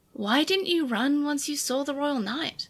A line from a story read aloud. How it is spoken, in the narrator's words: Yulin wondered quietly to herself